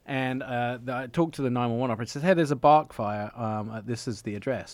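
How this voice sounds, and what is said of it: Speaks with a noticeable accent. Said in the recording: “they still don't understand my accent.”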